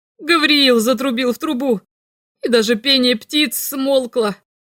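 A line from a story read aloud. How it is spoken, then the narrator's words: Giggling. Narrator (Russian): Он снова хихикнул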